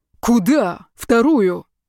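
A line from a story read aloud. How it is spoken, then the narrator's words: Sharp bark. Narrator (Russian): рявкнул он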